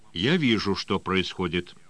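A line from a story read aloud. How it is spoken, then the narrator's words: Calm reply. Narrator (Russian): спокойно ответил Синклер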